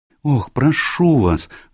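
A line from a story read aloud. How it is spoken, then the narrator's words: Pleading. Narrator (Russian): взмолилась Джулия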